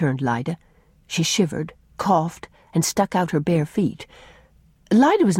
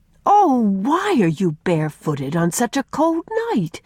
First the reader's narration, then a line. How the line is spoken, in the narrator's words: cried Faith